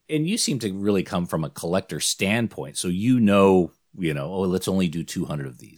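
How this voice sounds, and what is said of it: Australian accent. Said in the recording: “I'm in Sydney, by the way. I know my accent betrays me.”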